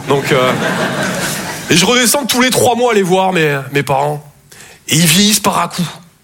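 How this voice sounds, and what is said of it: Southern French Toulouse accent. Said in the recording (French): “Je viens de Toulouse à la base. Ouais, ça s'entend un peu. ... mon accent”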